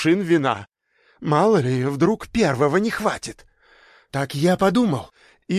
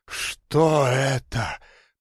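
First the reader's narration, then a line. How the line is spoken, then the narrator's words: Growling. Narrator (Russian): прорычало гостья моего постояльца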